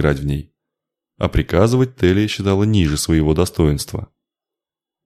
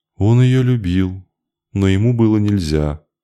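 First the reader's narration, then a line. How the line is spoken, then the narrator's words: Sad girlish voice. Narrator (Russian): печально добавил еще один, уже девичий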